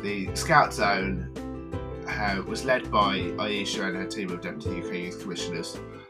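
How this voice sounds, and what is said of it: Midlands English accent. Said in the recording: “my Midlands accent”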